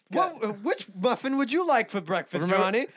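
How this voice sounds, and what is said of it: Character voice with lisp and accent. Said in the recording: “Does the same same lisp and accent as this.”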